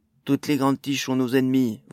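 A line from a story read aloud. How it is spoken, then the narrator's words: Dwarf shouting. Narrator (French): vociféra le premier nain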